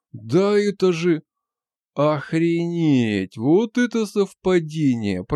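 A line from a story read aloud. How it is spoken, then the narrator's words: Drawled. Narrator (Russian): протянул Стар Рекс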